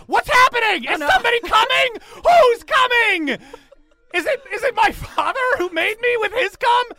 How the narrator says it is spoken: Flipcup, who has no idea what you're saying in common, just starts to scream

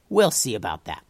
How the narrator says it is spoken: said Tubes

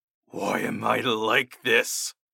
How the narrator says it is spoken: I garbled out in my unusual voice

